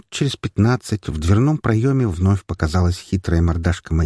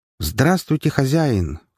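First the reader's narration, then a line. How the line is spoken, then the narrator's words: Exclaimed in chorus. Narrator (Russian): хором воскликнули Диана, Ира и Ксения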